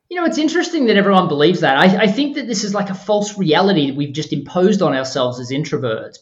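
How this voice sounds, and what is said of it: Australian accent. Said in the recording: “I'm an Aussie. So everyone, this is an Australian accent.”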